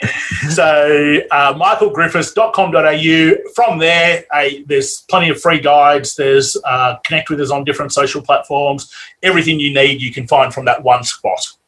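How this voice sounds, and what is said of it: Australian accent. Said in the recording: “we're in Australia. That's a funny accent”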